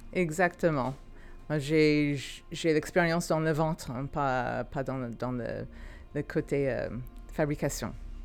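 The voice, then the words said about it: Californian accent speaking French. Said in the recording (French): “vous avez un accent, vous venez d'où exactement? ... Californie.”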